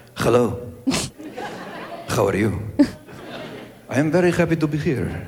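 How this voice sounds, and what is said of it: Suave put-on Spanish accent. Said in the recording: “The sexiest accent in the world is the Spanish accent ... people from Spain ... The authentic, old-time Spanish accent ... be all suave”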